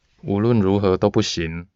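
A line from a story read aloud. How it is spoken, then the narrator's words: Cool, flat. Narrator (Chinese): 徐子杰 淡淡的问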